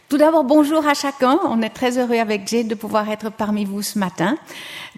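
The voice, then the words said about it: Swiss French accent from Lausanne. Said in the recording (French): “j'ai grandi à l'ouest de Lausanne. Je pense que vous pouvez reconnaître mon accent. Je ne peux pas nier que je suis de Lausanne.”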